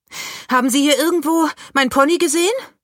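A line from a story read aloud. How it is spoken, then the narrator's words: Calling across distance. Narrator (German): ruft sie über die Gartenhecke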